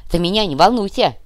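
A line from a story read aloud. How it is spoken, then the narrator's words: Grumbling. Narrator (Russian): проворчал Кувалда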